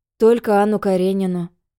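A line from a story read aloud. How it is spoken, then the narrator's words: Sighing. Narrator (Russian): вздохнул Вася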